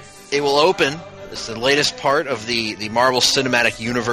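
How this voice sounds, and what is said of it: Usual voice. Nothing is said of it.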